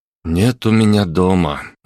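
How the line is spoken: Muffled, hollow reply. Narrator (Russian): глухо откликнулся

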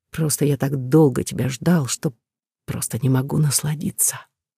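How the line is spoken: Chuckling drawl, hot whisper. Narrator (Russian): Протянув со смешком, жарко прошептал

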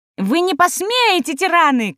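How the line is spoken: Shouting. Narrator (Russian): кричал он

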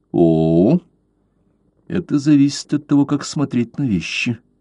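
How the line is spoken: Calm. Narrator (Russian): спокойно сказал Блад

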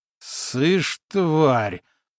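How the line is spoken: Growled. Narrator (Russian): прорычал боец

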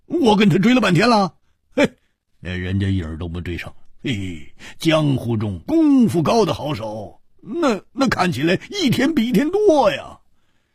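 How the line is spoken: Wry, rueful. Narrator (Chinese): 胡铁花苦笑着说

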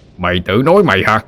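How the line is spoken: Roared back. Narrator (Vietnamese): Quan lửa gầm lại

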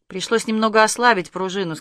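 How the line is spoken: Plain. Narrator (Russian): сказал Каширский

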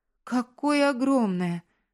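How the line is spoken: Exclamation. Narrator (Russian): воскликнула она

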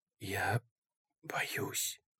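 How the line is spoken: Whisper. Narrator (Russian): прошептал он

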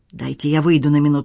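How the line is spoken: Very calm. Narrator (Russian): сказал Хуан очень спокойно

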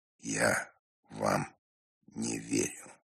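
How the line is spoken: Deadened voice. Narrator (Russian): помертвевшим голосом произнес Иван Дмитриевич

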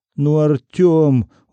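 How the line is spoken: Reproachful whining. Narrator (Russian): укоризненно захныкал Сигизмунд

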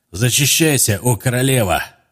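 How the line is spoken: Shouting. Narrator (Russian): крикнул он опять

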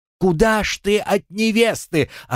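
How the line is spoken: Crowd yelling. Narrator (Russian): орали ученики

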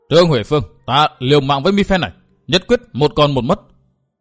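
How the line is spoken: Shout. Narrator (Vietnamese): Phi đại nương quát

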